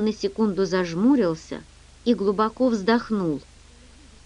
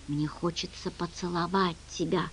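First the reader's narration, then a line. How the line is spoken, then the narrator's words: Whisper. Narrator (Russian): прошептал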